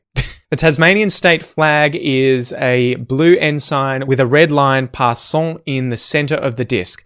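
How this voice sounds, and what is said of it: Put-on French accent. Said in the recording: “I don't know why I'm saying that with a French accent”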